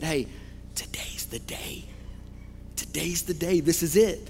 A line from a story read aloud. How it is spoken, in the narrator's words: the Holy Spirit whispered in Simeon's ear